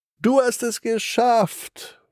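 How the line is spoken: Delighted call. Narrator (German): ruft der Tiger erfreut

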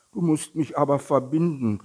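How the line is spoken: Small tiger calling out. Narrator (German): rief der kleine Tiger

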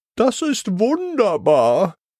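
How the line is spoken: Happy call. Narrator (German): ruft Mademoiselle Maus glücklich

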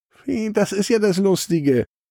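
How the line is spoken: Moon giggling. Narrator (German): kichert der Mond

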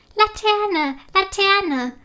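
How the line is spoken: Excited call. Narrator (German): ruft aufgeregt

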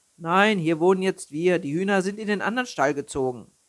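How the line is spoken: Answered loudly. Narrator (German): antwortete Albin laut

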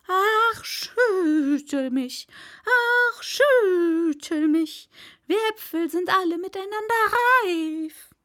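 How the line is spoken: Apple tree calling. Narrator (German): Apfelbaum, der rief

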